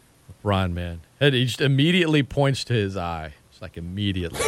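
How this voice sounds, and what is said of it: Usual voice. Nothing is said of it.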